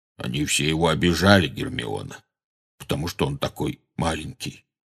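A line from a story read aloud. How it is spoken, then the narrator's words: Plain. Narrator (Russian): сказал Хагрид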